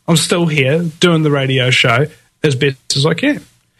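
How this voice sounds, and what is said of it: Sore-throated, congested voice. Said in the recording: “I've got a bit of a sore throat and a bit of a blocked nose”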